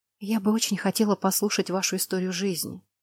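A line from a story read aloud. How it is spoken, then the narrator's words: Enchanted whisper. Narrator (Russian): зачарованно прошептала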